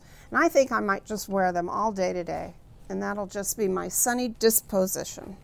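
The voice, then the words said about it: New Orleans accent on one word. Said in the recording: “It's your New Orleans accent. ... My New Orleans accent comes out with that word.”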